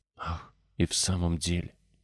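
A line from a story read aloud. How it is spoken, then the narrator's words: Whisper. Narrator (Russian): прошептал Колин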